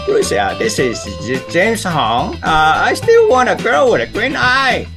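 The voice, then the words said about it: Impression of James Hong. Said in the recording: “James Hong is a friend of mine. I can do his voice for you right now.”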